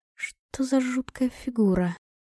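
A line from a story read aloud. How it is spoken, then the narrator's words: Muttering under breath. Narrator (Russian): пробормотала я себе под нос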